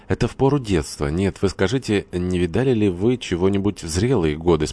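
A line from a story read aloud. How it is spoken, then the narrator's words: Plain. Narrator (Russian): спросила Лариса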